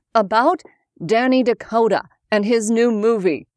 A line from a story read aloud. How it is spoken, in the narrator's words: RJ replied